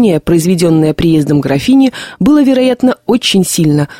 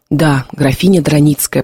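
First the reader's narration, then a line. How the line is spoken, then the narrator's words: Repeated whisper. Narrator (Russian): повторил Кузьмичев тоже шепотом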